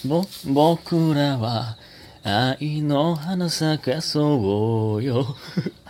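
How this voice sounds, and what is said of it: Sung imitation of another singer's voice. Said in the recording (Japanese): “堂本剛さんのモノマネできそうな歌声ですね ... 似てないな”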